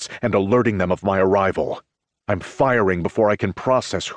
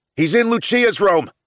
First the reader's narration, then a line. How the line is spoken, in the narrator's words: a man shouts